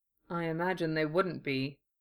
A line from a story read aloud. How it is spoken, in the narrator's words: Kenobi murmured